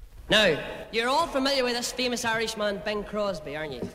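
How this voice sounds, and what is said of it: Northern Irish accent. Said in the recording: “They have this wonderful Northern Ireland accent ... I love their accents.”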